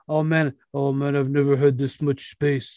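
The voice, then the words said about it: Impression of Joel Embiid. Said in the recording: “That's my Embiid impression.”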